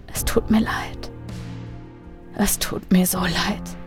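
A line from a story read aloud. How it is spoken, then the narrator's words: Remorseful whisper. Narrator (German): flüsterte er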